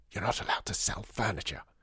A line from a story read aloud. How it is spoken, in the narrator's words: hissed Lydia at him